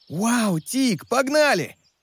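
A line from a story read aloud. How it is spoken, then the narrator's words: Shouting animal. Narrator (Russian): закричал леопард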